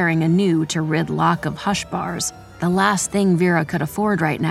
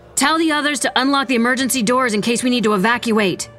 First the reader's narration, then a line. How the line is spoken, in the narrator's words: Vera shouted